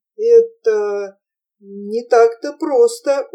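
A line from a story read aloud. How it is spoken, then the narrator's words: Heavy stuttering. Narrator (Russian): ужасно заикаясь, сказал он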